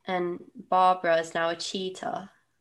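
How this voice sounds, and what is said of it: Put-on British accent. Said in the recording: “I don't know why I said that with a British accent.”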